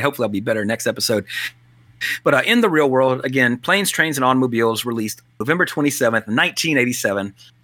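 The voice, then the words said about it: Hoarse voice from a cold. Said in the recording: “my voice, as you can hear, I'm still getting over a little bit of a cold”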